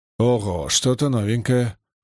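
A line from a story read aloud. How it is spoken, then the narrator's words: Muttered. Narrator (Russian): буркнул Маркус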